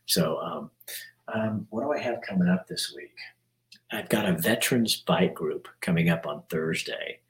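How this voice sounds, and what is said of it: Soft, odd-sounding voice. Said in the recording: “I'm talking soft, but that's because I got a weird voice.”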